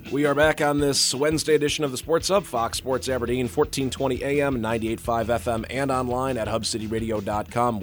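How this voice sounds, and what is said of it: Hoarse voice. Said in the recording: “sorry, I'm a little hoarse here today ... a little hoarse this morning”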